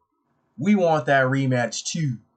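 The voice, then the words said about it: Put-on Baltimore accent. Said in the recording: “Had to add in the little Baltimore accent”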